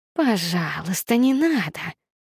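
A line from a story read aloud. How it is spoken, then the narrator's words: Indistinct hiss. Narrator (Russian): Невнятно прошипела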